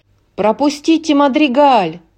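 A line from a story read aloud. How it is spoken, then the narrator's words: Villager shouted. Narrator (Russian): крикнул один из сельчан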